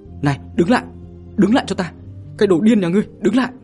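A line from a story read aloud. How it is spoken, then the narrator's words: Sudden loud scream. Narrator (Vietnamese): Đoạn Như Yên chợt thét lớn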